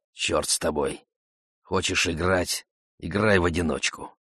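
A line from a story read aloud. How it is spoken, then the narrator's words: Quiet mutter. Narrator (Russian): пробормотал негромко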